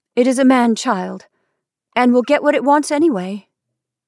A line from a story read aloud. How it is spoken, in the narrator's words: she said sharply